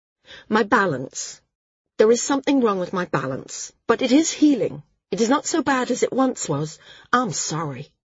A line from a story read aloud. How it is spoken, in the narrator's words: Tia said quickly